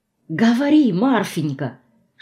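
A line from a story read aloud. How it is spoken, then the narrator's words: Whisper. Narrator (Russian): шепнула мне через стол Рената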